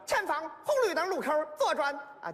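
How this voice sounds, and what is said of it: Put-on Henan accent. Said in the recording (Chinese): “河南语音的啊 ... 口音 ... 还挺像啊”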